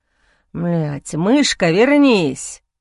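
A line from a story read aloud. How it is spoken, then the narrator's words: Nervous growl. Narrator (Russian): нервно прорычать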